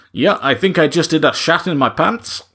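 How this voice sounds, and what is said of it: Strong Dutch accent impression. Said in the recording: “a very strong, inflected Dutch accent ... my apologies for the accent here”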